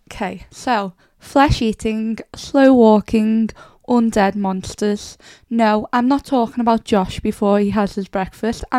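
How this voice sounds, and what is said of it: Rough, cold-affected voice. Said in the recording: “I've got a horrible cold ... sorry about my voice. It's been bad”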